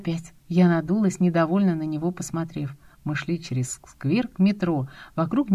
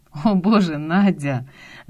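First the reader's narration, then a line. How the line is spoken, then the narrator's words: Laughing. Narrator (Russian): Закатил глаза Ромка, но засмеялся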